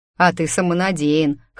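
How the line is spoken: Skeptical snort. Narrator (Russian): хмыкнул Дмитрий

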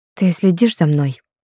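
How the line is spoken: Breathless. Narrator (Russian): выдохнула Михалина

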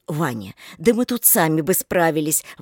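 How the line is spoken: Exclaiming. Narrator (Russian): воскликнула Рита

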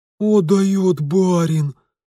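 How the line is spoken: Guards breathless exclamation. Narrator (Russian): выдохнули стражники

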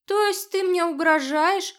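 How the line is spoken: Chuckle without bravado. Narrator (Russian): хохотнул Барсон, но уже без прежней бравады

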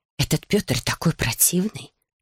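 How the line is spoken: Mother whispering. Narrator (Russian): зашептала мама

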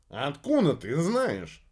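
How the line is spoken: Indignant question. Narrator (Russian): возмущенно спросил Иха

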